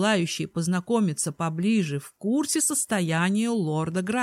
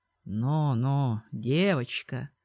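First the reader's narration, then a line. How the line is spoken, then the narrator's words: Cooing, hulking man. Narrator (Russian): проворковал этот мужчина шкаф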